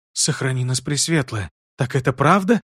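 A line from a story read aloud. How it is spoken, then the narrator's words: Crushed whisper, old woman. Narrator (Russian): подавленно прошептала старая ведьма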